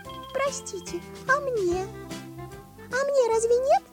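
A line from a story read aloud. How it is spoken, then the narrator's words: Thin squeak, small mouse. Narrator (Russian): тоненько пискнула серая мышка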